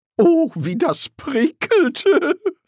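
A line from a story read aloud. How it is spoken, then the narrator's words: Giggling woman. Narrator (German): Die Frau kicherte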